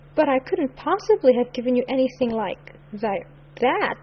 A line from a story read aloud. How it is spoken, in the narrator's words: stammered Cornelia